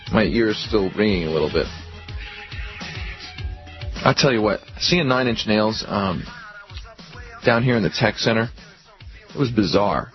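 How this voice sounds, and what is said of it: Slightly hoarse voice. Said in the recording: “My voice still a little hoarse from the concert last night.”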